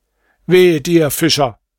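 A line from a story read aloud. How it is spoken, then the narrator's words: Exclaiming. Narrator (German): rief er aus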